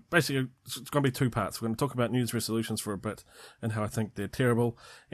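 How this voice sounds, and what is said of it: New Zealand accent. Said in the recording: “no other interesting accents apart from my one. And if you're not in New Zealand, then maybe it's an interesting accent.”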